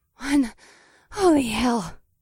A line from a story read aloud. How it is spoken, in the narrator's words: Akira panted